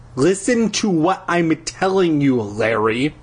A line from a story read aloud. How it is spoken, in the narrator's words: she said through gritted teeth